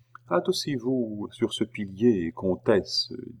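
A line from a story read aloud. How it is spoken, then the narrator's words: Whisper. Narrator (French): dit tout bas une voix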